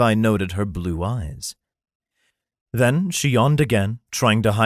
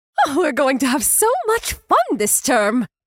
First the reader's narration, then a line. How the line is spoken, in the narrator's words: she exclaimed, clearly happy